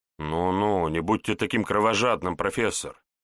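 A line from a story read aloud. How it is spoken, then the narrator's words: Thoughtful, smiling. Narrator (Russian): Задумчиво улыбнулся Егор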